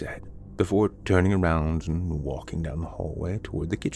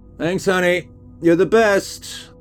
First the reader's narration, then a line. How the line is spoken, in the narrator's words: I shouted out to her